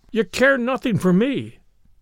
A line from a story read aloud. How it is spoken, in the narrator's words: cried the husband